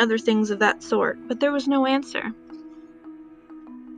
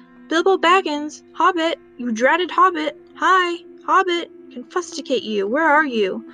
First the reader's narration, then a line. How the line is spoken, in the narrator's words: They shouted and called